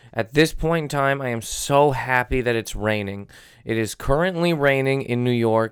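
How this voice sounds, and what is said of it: Sick, strained voice. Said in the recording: “I'll never get my voice back... my voice is in a weird place right now. This is kind of what it is.”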